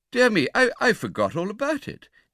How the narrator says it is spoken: exclaimed the absent old gentleman, innocently

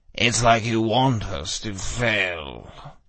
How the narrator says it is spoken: Justin groaned

